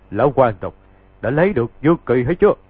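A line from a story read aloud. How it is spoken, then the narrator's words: Loud laughing voice from outside. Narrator (Vietnamese): bên ngoài hang có kẻ cười to rồi nói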